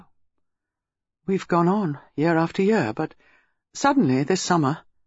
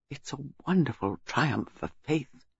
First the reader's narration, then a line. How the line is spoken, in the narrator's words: Bantry said softly